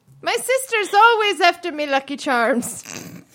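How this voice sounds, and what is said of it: Poor attempt at an Irish accent. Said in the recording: “I can't do an accent to save my life.”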